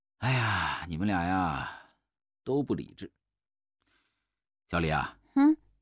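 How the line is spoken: Sighing. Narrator (Chinese): 涂百药叹了一口气

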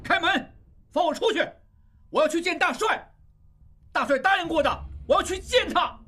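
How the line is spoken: Angry. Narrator (Chinese): 愤怒地

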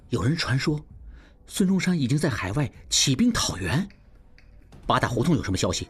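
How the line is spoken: Low voice. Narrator (Chinese): 应文低声道

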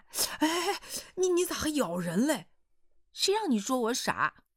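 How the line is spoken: Wry resigned smile. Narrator (Chinese): 软硬都得屈服的苦笑了

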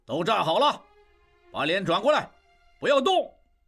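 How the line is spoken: Officer shouting orders. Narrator (Chinese): 一名负责行刑的军官对他们喊道

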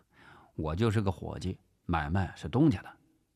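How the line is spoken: Flat, indifferent. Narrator (Chinese): 陈发斌淡淡的回答

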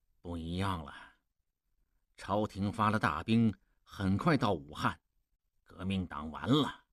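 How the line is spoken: Low voice. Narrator (Chinese): 望柏低声说

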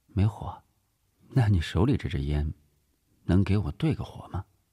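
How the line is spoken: Cool, dismissive. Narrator (Chinese): 李晴……淡淡的敷衍道

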